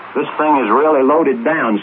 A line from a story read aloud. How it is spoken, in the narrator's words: said Pilot Pete